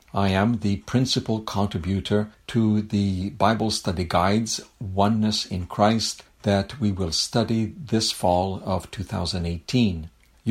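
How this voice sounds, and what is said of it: French-Canadian accent. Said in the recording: “You've noticed my accent ... I'm a French-Canadian from Quebec City in Canada”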